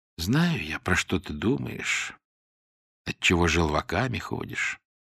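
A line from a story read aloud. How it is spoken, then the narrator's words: Very quiet. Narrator (Russian): совсем тихо сказал Мягков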